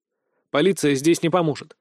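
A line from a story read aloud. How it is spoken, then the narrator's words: Cold, flat. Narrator (Russian): холодно сказал я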